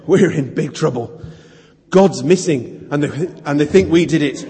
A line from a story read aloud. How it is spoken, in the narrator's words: panting, he said